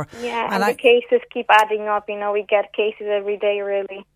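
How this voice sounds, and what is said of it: Polish accent. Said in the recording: “I can tell by your accent, you're you're not a native of, of Cork ... No, no, I'm Polish.”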